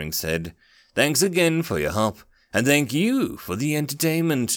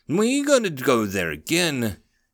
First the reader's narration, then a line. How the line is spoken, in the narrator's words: Daring laughed